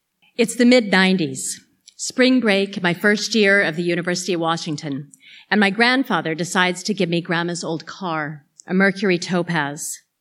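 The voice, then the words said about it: American accent. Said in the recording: “someone with an American accent”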